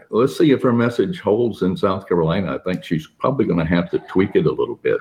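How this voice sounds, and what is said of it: Smooth radio announcer voice. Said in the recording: “your voice, I love a good radio voice”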